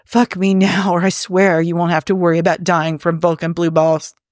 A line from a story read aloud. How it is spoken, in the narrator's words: Jim panted